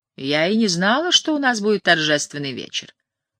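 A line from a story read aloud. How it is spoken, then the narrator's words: Dry, cold. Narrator (Russian): сухо сказала она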